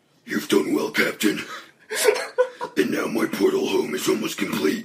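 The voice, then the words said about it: Demon character voice. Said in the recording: “You do that demon voice so well.”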